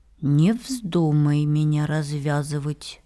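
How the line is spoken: Calm warning, small worm. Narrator (Russian): предупредил спокойным голосом завязанный узлом червячок

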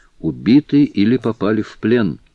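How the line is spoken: Plain. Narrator (Russian): ответил Филиас Фок

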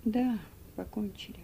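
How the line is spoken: Thoughtful speech. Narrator (Russian): в раздумье проговорил мистер Шельби

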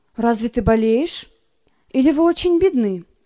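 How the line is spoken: Sharp retort. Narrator (Russian): Зоя резко ответила

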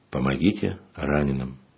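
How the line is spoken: Quiet. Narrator (Russian): тихо произнес

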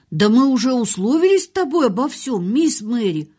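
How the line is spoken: Plain. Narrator (Russian): ответил Дикин

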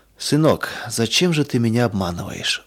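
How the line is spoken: Father sad and quiet. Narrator (Russian): вдруг спросил отец грустно и тихо

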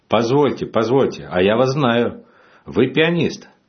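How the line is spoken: Sudden exclamation. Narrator (Russian): Один из заключенных вдруг воскликнул

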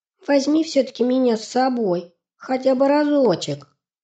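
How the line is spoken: Thin little voice, asking. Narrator (Russian): Сипсик попросил своим тоненьким голоском

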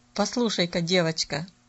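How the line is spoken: Dry, curt. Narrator (Russian): сухо произнес он

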